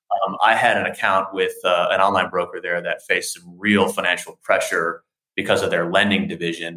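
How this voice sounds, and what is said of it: American accent. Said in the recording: “as an American, as I'm sure you can hear in my accents”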